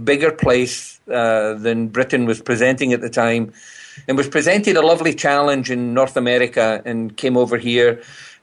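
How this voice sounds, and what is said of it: Distinctive Scottish accent. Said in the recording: “been away from Scotland over 50 years, I've retained this accent ... it's very distinctive ... it has that unique sort of sounding uh, flavor to it”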